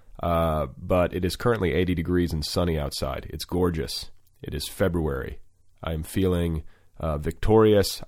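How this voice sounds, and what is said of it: Sick, under-the-weather voice. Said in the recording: “I'm a little under the weather. Can you hear it in my voice?”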